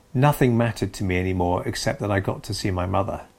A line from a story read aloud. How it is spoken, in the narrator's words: she said